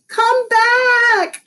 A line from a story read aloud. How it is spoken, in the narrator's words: I screamed